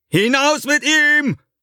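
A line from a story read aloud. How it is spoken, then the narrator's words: Calling out to guards. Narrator (German): ruft er den Aufsehern zu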